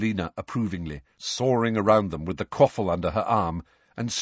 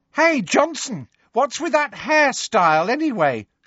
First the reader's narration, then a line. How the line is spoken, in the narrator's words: shrieked Pansy Parkinson from below